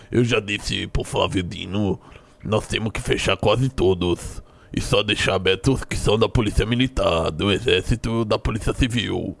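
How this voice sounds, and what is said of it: Imitates another person's voice. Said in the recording (Portuguese): “vocês acharam da minha imitação? ... De 0 a 10? ... 6.”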